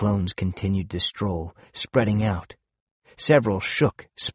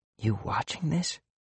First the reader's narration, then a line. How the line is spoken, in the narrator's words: whispered